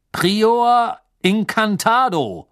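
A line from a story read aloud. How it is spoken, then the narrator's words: Thundering shout. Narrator (German): rief er mit donnernder Stimme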